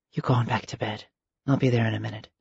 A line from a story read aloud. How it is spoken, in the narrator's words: whispered